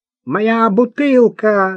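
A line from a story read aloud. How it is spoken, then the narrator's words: Shout. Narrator (Russian): закричал Тавянян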